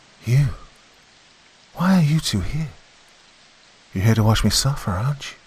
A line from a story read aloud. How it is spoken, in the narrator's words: her voice was smooth and sweet, dripping with honey as she spoke